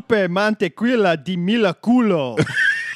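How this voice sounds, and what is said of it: Dracula-style accent. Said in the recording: “That's also my Dracula accent.”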